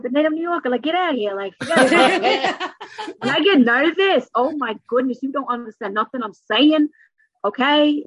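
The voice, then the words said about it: New York accent. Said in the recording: “I have the accent, not the Texas accent ... I have the New York accent”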